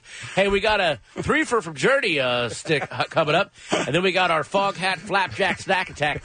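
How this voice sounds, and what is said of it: Exaggerated morning radio DJ voice. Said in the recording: “morning DJ radio voice”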